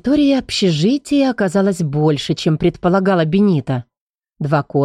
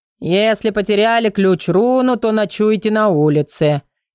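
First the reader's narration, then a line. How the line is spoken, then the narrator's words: Man grumbling. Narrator (Russian): проворчал мужчина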